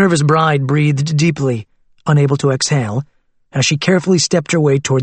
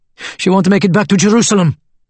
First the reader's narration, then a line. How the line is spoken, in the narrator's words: a woman pleaded